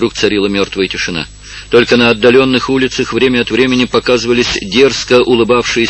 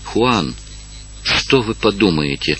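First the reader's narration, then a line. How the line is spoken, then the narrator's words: Whispered. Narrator (Russian): прошептала, наконец, Маргарита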